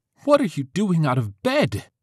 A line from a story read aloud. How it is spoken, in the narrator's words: her mother yelled